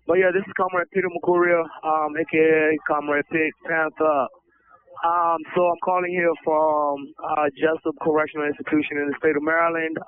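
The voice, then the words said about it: Slightly hoarse, strained voice. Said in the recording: “Excuse my voice, I'm slightly losing my voice.”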